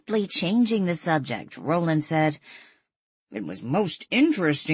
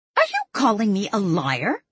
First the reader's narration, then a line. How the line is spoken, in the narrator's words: Stella snapped